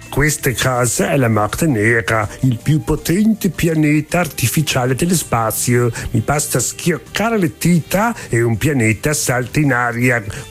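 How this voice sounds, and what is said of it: Italian with put-on German accent. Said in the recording (Italian): “accento tedesco odioso”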